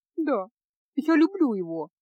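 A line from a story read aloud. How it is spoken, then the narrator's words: Girl sobbing. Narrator (Russian): проговорила девушка, всхлипывая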